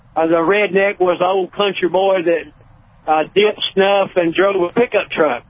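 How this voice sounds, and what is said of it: Caller's regional accent. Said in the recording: “I love your accent. That rocks.”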